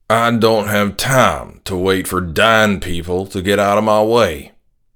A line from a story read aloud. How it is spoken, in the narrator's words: he said in his usual slow country drawl